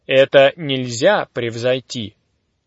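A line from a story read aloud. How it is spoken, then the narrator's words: Plain. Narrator (Russian): сказал мой учитель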